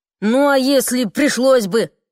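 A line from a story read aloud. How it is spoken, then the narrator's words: Irritated. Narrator (Russian): раздраженно сказала Элизабет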